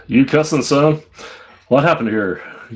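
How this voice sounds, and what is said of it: American cowboy accent. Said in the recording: “I have to say that with an American cowboy accent.”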